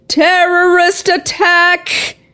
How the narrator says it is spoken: Gomez cried out

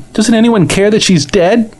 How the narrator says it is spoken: She cried

